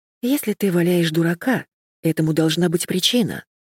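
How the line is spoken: Sighing. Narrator (Russian): вздохнула я

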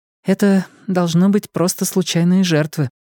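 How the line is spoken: Sighing. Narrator (Russian): вздохнула Ильва

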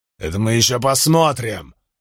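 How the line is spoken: Roaring. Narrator (Russian): взревел Крикс

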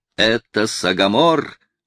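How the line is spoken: Cry out. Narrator (Russian): вскрикнул Соколиный глаз

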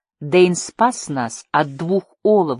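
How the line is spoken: Loud. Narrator (Russian): громко сказала

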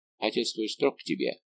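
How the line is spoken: Plain. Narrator (Russian): спросил он

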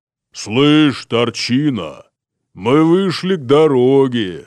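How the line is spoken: Deep booming bass. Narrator (Russian): сказал утробным басом человек

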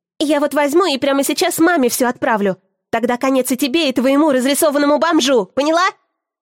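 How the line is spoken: Yelling. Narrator (Russian): вопит она

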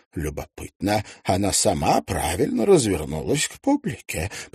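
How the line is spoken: Muttered under breath. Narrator (Russian): пробормотал себе под нос

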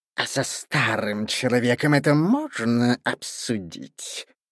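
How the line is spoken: Hissed. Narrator (Russian): прошипел сеньор

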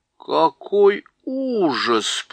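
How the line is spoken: Drawled. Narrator (Russian): протянула Лазарелина

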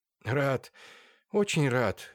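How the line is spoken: Sad reply. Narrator (Russian): грустно ответил Андрей Артемьевич

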